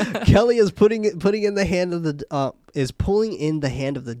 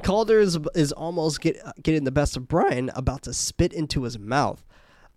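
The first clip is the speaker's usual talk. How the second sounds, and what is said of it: Voice cracks mid-sentence. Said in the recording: “my voice just cracked right there ... I'm still in puberty”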